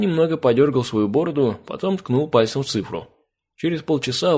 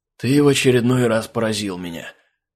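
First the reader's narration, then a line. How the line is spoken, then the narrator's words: Breathed out. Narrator (Russian): выдохнул он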